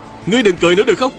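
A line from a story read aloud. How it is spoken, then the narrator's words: Young man's pitying shout. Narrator (Vietnamese): Một đạo nhân còn trẻ bỗng động lòng, bèn hét lên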